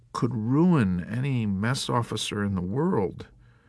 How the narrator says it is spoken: Milo mumbled despondently

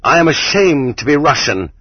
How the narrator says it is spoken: cried Herzen

